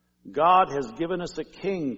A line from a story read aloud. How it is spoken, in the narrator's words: shouted